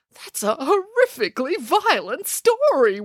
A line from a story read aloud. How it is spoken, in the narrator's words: wailed Boris